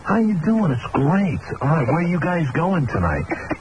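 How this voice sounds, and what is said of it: Slight New York accent. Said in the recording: “he had this slight New York accent ... he had a New York accent”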